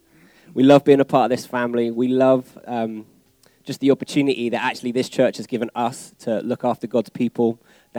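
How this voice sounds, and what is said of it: English accent. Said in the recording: “You guys know what English accents here are like, so you don't need translators.”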